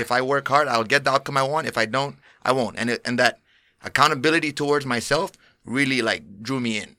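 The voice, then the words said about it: Speaker's own foreign accent. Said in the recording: “That's the accent... that's where it's from”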